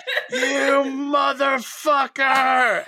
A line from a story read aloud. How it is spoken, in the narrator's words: Yelling and screaming